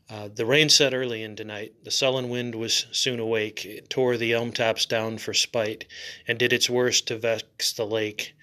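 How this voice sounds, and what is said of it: Scratchy voice. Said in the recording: “forgive my voice. My voice is a little scratchy today.”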